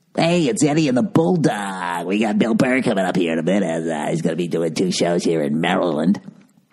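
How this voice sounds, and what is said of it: Cheesy morning radio DJ voice. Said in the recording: “your fucking morning DJ voice ... that was a bad morning DJ voice”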